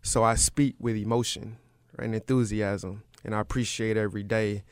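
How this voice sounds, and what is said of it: Rural Deep South American accent. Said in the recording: “I grew up in the deep south, in a country rural town in Florida... I was always concerned that people couldn't understand my dialect”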